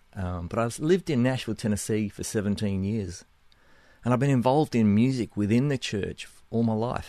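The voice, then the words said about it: Australian–New Zealand accent. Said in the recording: “I'm originally from Australia. That's the accent, somewhere between Australia and New Zealand, I guess.”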